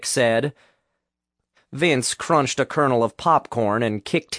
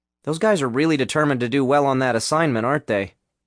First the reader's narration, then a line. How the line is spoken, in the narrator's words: Vince asked